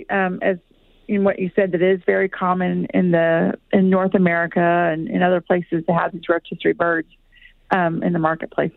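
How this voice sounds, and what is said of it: Texan accent. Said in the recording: “They love your accent. Absolutely love it. ... It's from Texas. I'm originally from Texas, so that might be coming out in me today.”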